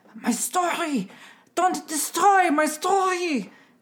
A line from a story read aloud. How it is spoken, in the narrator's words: he screamed at them